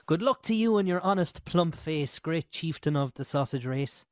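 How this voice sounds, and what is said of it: Irish accent reciting a poem. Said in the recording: “I'll give my best impression of an Irishman who doesn't know the poem.”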